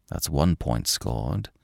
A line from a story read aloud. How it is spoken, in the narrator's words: he muttered